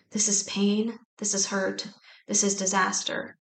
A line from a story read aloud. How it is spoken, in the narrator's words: Vaughn prayed in a low voice